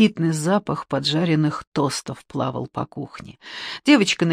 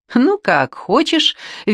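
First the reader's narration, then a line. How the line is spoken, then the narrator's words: Cheerful. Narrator (Russian): весело отозвалась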